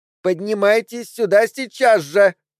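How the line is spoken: Demanding, capricious girl's shout. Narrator (Russian): требовательно и капризно крикнула девочка, и раздражительность ее

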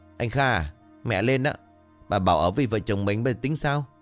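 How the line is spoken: Resentful, sullen voice. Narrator (Vietnamese): Vân bấm môi, bằng giọng hậm hực

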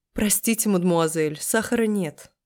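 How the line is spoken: Suppressing laughter. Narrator (Russian): Марина, стараясь не рассмеяться в голос

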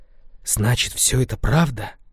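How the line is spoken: Barely audible whisper. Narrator (Russian): Губы неслышно прошептали

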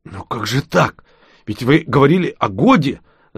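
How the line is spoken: Flustered babbling. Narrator (Russian): залепетал ростовщик

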